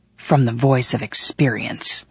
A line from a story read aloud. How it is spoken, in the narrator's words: I whispered with a rage that made my voice hiss